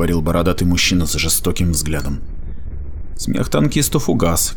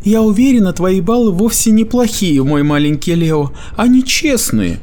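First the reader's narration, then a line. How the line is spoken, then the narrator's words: Soothing motherly coo. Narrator (Russian): проворковал Меггин голосом матери, успокаивающей ребенка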